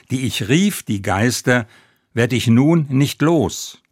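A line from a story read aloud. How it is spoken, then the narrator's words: Desperate cry. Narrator (German): ruft er schließlich verzweifelt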